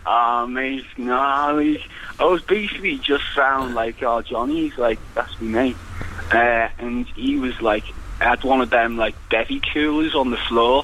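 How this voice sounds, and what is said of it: Liverpool accent. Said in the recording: “it sounds like you're from Liverpool”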